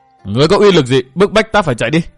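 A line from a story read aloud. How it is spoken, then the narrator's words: Shouting. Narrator (Vietnamese): Triệu Toàn Hải hét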